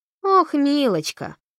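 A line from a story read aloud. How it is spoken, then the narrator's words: Sarcastic snort. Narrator (Russian): фыркнула Камила язвительно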